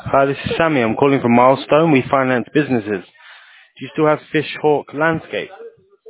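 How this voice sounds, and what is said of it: Foreign accent. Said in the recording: “you sound like a foreign accent.”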